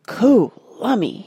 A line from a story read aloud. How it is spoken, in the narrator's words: he said in a hushed whisper